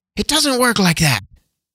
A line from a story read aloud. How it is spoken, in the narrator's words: snapped Nessica